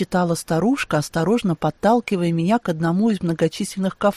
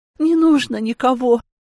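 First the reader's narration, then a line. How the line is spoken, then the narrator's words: Forced out through tears. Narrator (Russian): Сквозь слезы выдавила я на родном языке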